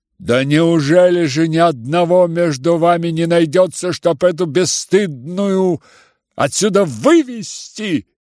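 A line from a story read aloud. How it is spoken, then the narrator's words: Sudden cry, trembling with anger. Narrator (Russian): вскрикнула вдруг вся трепеща от гнева Варя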